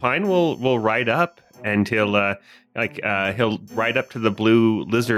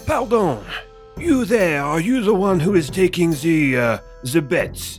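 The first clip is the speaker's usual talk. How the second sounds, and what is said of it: Put-on French accent. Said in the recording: “a French accent with my fine voice”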